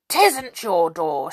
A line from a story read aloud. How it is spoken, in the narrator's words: shouted Moonface